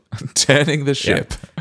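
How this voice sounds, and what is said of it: Imitates a ship captain's voice. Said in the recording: “I think that's how captains talk. ... That was also my impression of a captain.”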